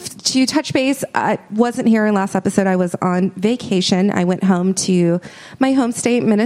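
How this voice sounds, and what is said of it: Usual voice. Nothing is said of it.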